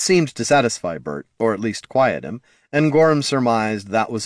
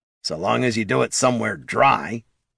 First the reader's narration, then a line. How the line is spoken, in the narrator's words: grumbled the kobold